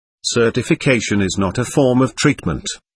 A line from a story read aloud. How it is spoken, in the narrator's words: said dryly